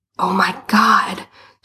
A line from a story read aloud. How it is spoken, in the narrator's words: she hissed